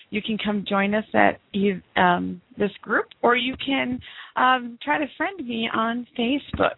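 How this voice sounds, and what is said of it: Sick-sounding voice. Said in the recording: “Excuse my voice today. I have been sick for the last 10 days”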